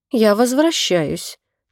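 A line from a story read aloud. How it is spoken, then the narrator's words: Quiet. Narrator (Russian): тихо сказала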